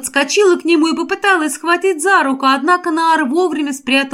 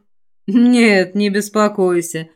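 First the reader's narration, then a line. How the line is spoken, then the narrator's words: Smirking. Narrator (Russian): хмыкнул Наар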